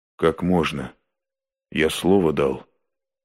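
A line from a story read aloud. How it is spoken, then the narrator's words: Quiet. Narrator (Russian): Никитин тихо молвил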